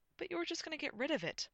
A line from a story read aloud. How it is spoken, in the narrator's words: Gwyn gasped, appalled